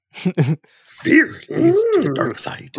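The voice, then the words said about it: Yoda character voice. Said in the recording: “Can you do a Yoda impression? ... You gotta make your voice like this.”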